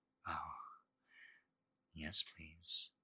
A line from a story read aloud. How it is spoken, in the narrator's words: she whispers